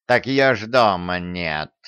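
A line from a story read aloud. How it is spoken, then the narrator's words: Snorting. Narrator (Russian): хмыкнул Васька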